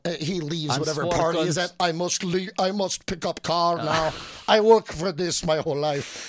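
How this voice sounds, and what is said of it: Put-on Norwegian accent. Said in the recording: “this big, Norwegian man ... You do the accent better.”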